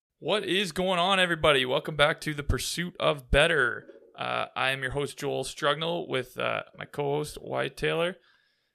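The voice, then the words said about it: Slightly raspy voice. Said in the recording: “my voice is a little raspy today ... you're definitely a little raspy ... I didn't think I yelled that loud at the golf tournament”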